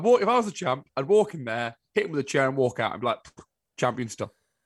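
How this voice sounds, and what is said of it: Mocking voice of a complaining fan. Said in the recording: “that an impression of me, by the way, earlier? That voice? ... That was an impression of all the terrible fans who all they do is moan on the internet. ... It may not have been an impression, but it wasn't far off. I know how I sound, and that was sort of uncanny.”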